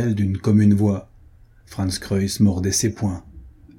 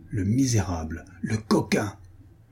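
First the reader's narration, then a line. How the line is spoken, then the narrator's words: Murmured. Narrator (French): murmura-t-il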